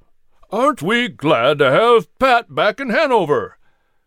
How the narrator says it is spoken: John Shelton … exclaimed

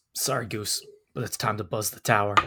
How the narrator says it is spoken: Cody mutters

